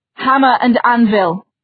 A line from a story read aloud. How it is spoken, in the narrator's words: he shouted